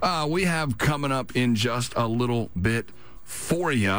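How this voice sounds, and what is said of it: Usual voice. Nothing is said of it.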